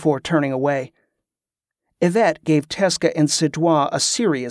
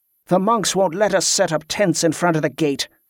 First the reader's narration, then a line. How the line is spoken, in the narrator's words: snapped Padraic